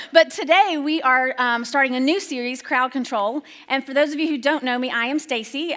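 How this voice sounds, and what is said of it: Slight southern accent, fast talker. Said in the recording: “I do have an accent ... a little bit of a southern accent ... you talk really fast”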